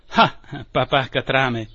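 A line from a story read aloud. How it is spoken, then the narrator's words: Captain exclaiming. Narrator (Italian): esclamò il capitano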